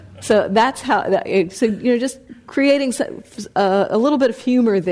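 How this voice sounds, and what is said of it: Usual voice. Nothing is said of it.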